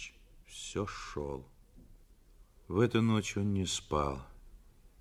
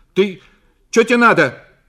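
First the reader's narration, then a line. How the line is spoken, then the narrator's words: Startled shout on waking. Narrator (Russian): крикнула Зина, проснувшись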